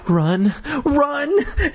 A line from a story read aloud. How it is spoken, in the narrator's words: Terry cried, her eyes wild